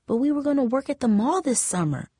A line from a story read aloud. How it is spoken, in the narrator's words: Monique murmured